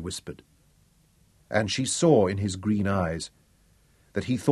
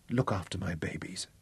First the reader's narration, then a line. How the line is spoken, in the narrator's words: said softly, but very clearly